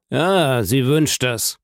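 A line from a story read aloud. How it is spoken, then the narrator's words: Terrible, menacing tone. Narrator (German): versetzte Villefort mit schrecklichem Ton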